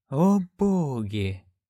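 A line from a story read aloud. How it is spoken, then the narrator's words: Whispered. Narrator (Russian): прошептала Маград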